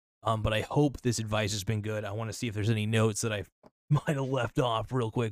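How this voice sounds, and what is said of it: Hoarse, strained voice. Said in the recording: “losing my voice a little bit. I'm sounding a little bit ridiculous.”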